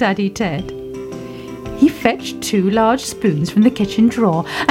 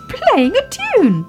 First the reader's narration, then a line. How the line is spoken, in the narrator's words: cried Baby Ted